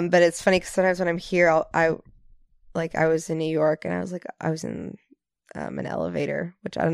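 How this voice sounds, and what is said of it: Mostly American accent. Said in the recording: “my accent is more or less American”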